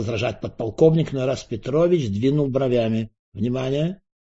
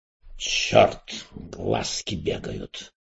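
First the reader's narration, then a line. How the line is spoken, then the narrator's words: Mumbling. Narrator (Russian): пробормотал Эраст Петрович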